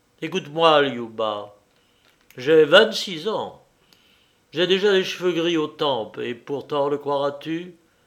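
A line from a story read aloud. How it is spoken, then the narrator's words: Hesitant, then firm and haughty. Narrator (French): hésita un peu, puis il continua d'une voix ferme et même un peu hautaine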